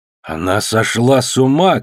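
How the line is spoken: Shout. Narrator (Russian): крикнул Эситей

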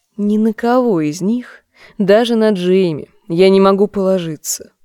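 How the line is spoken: Grim, to herself. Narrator (Russian): мрачно говорила себе Серсея

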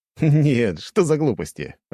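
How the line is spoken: Laughing. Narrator (Russian): рассмеялся я

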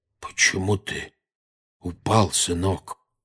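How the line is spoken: Unnaturally quiet question. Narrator (Russian): спросил дядя Вернон неестественно тихим голосом

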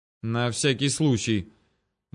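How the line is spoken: Muttered. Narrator (Russian): буркнул он

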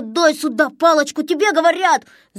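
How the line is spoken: Yelling. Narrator (Russian): заорал Незнайка

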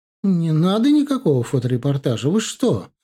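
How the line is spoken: Exclaimed. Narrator (Russian): воскликнула она

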